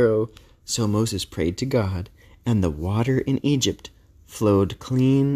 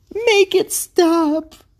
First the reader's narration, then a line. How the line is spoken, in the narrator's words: cried Pharaoh